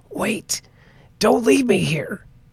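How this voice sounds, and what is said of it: Raspy, low child character voice. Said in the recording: “a raspy voice, much lower than he would have expected from a small child”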